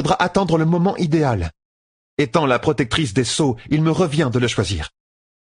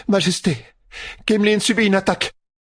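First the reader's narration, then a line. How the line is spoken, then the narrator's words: Breathless woman. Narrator (French): dit la femme, haletante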